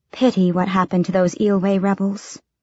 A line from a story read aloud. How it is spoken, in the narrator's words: she said quietly enough that no listening ears might hear